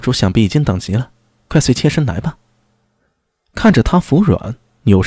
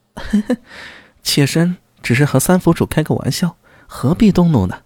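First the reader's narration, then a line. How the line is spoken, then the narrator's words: Startled, coy muffled laugh. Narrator (Chinese): 孙九娘一惊 掩嘴娇笑道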